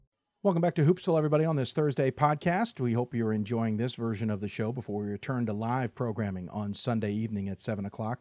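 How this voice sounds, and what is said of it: Sick, under-the-weather voice. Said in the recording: “Forgive my voice as well, under the weather this week”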